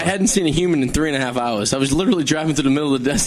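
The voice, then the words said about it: Boston accent. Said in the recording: “You have a Boston accent.”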